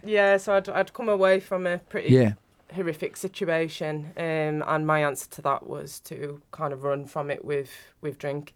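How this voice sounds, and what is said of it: Northern English accent. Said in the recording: “I'm not from around here, you can tell with my accent ... Northern.”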